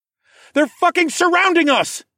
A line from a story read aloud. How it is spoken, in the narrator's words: I yelled back